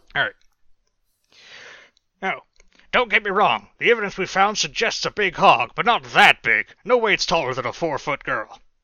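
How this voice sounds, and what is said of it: Character voice for Ranger Simpson. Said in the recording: “to do a voice for Ranger Simpson”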